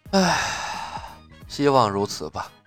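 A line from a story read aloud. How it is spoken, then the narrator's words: Sighing. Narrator (Chinese): 岳不群叹着说道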